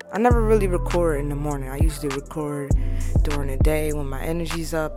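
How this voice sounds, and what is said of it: Slightly hoarse morning voice. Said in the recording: “Voice woke up a little hoarse.”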